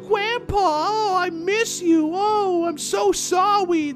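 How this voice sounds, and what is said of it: Little girl baby-talk voice. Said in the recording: “the little cleric girl who talks with baby talk ... Can't do that voice whatsoever.”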